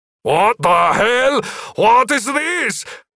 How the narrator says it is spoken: Magnus Rex shouted

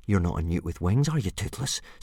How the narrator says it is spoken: said Hiccup

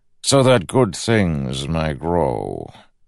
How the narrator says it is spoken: said smoothly

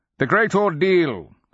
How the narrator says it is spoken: he called out

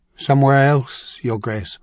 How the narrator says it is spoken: Willem Reno replied with a sigh

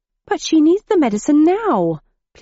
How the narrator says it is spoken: pleaded Mr

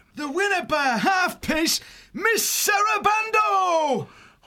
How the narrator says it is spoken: the beekeeper shouting

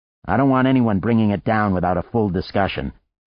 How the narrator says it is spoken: he told her sharply

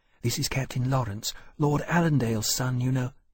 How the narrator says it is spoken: she added, in an undertone that Lawrence could barely hear

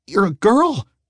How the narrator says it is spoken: he squeaked, feeling both ashamed and excited

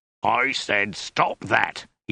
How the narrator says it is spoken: he bellowed

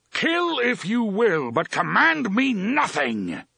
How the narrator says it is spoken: the gunslinger roared

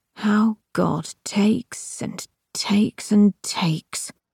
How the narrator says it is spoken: he said quietly

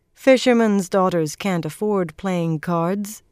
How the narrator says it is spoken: Swan replied dryly

